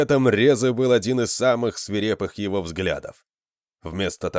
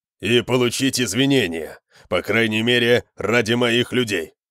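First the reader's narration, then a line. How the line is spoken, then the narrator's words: Growled demand. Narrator (Russian): прорычал Конан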